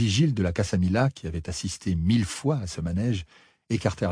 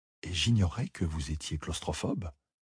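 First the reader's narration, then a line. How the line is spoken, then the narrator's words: Murmured. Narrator (French): murmura Ambra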